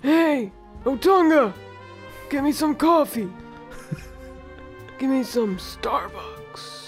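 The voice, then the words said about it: Raspy, laryngitis-like imitated voice. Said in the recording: “How come he talks like that? He does talk like he has laryngitis... I that's not a good impression. Is it?... Yeah, that's close... That's exactly how it is.”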